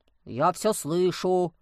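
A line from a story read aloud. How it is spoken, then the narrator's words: Grumbled. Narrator (Russian): пробурчал Демьян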